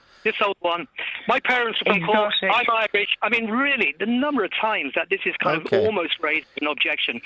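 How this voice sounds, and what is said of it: English accent. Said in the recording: “Why have you got an English accent”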